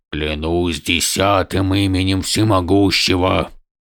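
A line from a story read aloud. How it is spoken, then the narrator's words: Hoarse strained voice. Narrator (Russian): проговорил великий князь севшим голосом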